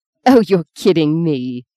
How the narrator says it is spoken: she said slowly

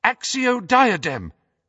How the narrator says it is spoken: cried Hermione in desperation

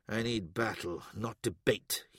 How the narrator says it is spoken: he muttered

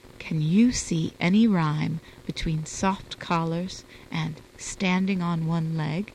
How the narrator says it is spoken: he said softly

